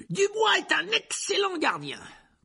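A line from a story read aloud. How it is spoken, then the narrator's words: Commenting. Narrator (French): commenta Lee Jordan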